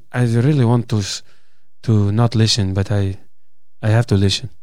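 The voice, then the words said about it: Put-on Brazilian accent sounding French. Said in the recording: “That's my Brazilian. ... sound French? ... he's my Brazilian. He's trying to do sort of Portuguese. ... No, it's a bit French, isn't it?”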